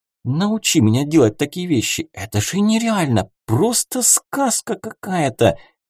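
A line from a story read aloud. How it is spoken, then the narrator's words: Joyful whisper in ear. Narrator (Russian): радостно прошептала она мне в ухо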